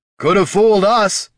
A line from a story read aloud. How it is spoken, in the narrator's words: shouted Jin